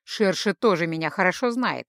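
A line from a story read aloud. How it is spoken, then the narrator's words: Snorting. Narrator (Russian): хмыкнул Майрел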